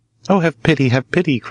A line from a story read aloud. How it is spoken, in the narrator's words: cried the heron